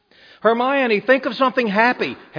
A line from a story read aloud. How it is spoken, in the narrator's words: Harry yelled